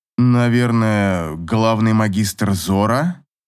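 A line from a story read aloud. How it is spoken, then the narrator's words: Uncertain guess. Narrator (Russian): неуверенно предположил Эйнар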